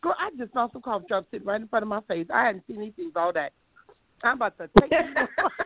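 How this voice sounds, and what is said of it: Strained, sore-throat voice. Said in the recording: “my voice is killing me. I'm like, oh, I can't talk. I'm about to give out. My throat is sore.”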